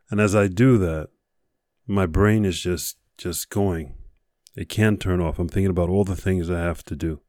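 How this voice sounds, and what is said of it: Voice affected by a cold. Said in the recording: “with a bit of a cold, so I apologize for my voice”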